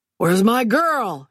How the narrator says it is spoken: he bellowed

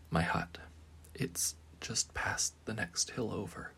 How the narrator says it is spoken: the witch whispered

